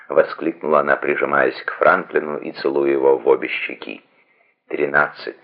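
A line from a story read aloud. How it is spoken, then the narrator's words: Gentle correction. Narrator (Russian): поправил он мягко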